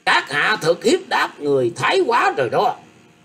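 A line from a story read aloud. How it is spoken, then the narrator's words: Old man shouting. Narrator (Vietnamese): Lão ta quát lên rằng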